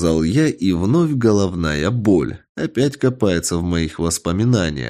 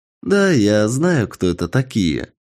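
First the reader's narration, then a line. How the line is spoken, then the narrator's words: Answer, then laughter. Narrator (Russian): ответил мальчик и рассмеялся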